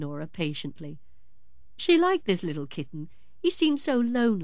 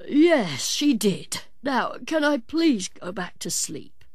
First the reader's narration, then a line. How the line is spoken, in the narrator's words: pleaded Nora Ratty, yawning again